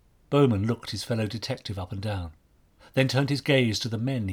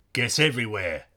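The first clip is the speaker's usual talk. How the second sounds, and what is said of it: Strong Cockney accent. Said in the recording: “in a strong Cockney accent”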